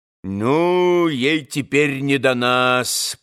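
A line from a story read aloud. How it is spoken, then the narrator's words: Grumbling. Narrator (Russian): проворчал Ракитин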